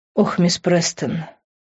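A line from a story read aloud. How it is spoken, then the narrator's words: Heavy sigh by housekeeper. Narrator (Russian): тяжело вздохнула домработница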